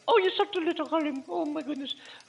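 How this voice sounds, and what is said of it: Mrs. Doubtfire impression. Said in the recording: “Now I'm sounding like Mrs. Doubtfire.”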